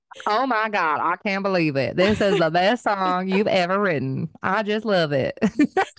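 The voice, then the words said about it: Imitates another person's accented voice. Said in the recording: “I love her accent.”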